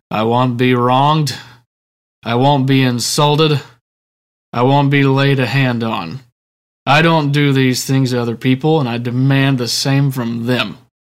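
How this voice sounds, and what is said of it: John Wayne impression. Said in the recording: “I can't do this without impersonating John Wayne, right? ... That wasn't too bad, was it?”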